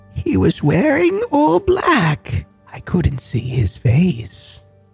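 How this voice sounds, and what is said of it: Old lady voice. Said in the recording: “in an old lady voice”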